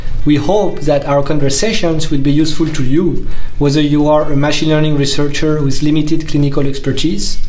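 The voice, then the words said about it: French accent. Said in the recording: “our French accent”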